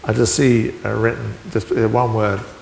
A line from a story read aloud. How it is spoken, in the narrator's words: said over Helen